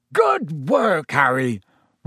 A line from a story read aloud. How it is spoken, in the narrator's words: roared Hagrid